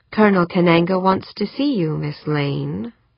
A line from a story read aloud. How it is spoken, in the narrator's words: said, his voice soft, non-threatening